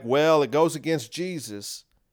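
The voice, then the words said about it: Put-on southern accent. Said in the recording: “I'm gonna give them a southern accent”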